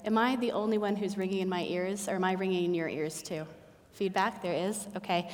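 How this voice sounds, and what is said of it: Usual voice. Nothing is said of it.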